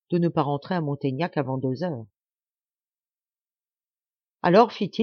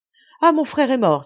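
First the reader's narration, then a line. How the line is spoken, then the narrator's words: Exclaiming. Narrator (French): s'écria Marianne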